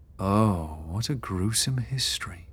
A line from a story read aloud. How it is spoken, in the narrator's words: Beatrix murmured